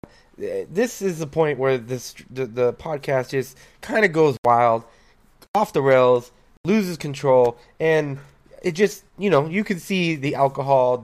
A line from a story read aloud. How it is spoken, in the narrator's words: the word slurring